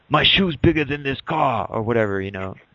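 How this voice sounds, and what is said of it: Poor imitation of another person's voice. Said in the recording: “Terrible Arnold impersonation.”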